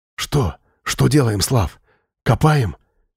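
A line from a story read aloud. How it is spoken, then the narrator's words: Quiet questions, young men. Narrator (Russian): начали тихо спрашивать парни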